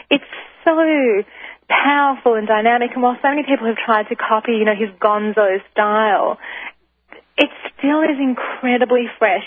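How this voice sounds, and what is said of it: Australian accent. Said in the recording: “obviously from my accent, people can tell that I'm originally from Australia”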